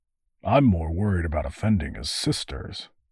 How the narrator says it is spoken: muttered the other constable

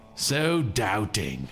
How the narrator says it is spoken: Vix sneered

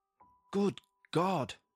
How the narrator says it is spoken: I exclaimed

